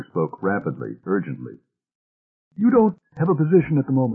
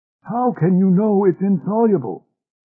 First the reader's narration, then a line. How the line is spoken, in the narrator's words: asked Deering eagerly